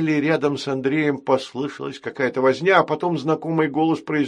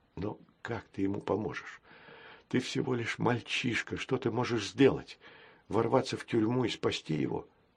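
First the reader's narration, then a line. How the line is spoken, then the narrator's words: Cowardly inner whisper. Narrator (Russian): нашептывал второй трусливый голос в его душе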